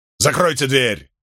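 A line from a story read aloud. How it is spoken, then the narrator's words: Barking. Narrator (Russian): рявкнул на него Лилихорн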